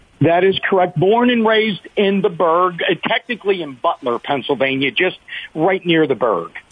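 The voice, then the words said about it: Pittsburgh accent. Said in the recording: “can hear your accent. I can hear your accent. You're from the Berg.”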